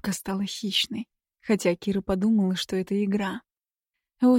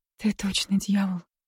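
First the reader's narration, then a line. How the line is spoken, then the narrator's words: Breathless exhale. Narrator (Russian): выдохнула она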